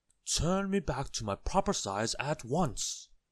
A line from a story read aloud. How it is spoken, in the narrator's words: spluttered Mr